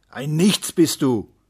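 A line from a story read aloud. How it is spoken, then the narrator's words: Uncle shouting. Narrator (German): schrie der Onkel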